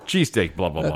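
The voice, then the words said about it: Put-on Philadelphia accent. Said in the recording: “Let's give a Philly accent.”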